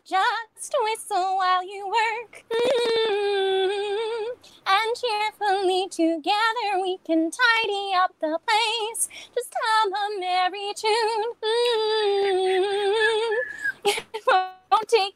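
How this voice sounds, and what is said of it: Singing in a Snow White voice. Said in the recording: “in your Snow White voice”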